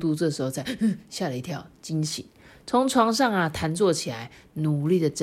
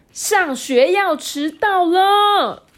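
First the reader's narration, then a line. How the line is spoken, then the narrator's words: Shouting. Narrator (Chinese): 大吼着说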